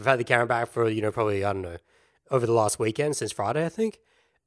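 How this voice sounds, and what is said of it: Strained, worn-out hoarse voice. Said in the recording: “as you can hear, my voice is a little reefed at the moment. It's a little out of commish ... I kind of just destroyed it”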